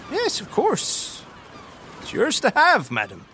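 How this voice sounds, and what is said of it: Servant character with Cockney accent. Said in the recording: “Why did her servant have a Cockney accent?”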